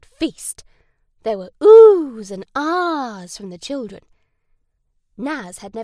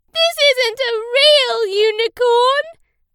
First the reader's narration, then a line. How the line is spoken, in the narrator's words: Naz cried